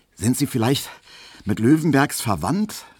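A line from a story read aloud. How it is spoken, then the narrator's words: Asked, panting. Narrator (German): fragte Emil Kubinke, doch schon etwas keuchend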